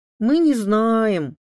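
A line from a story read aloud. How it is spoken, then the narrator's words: Twins drawling in unison. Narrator (Russian): хором протянули близнецы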